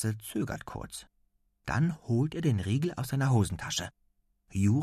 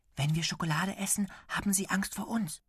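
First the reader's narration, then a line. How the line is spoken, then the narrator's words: Whispering. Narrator (German): flüstert er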